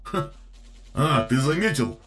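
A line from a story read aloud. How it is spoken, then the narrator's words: Chuckling. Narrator (Russian): хохотнул Вандред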